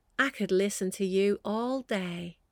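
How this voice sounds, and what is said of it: Soft imitated Canadian voice. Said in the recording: “in this really soft, beautiful Canadian voice, of which I'm going to do it no justice whatsoever”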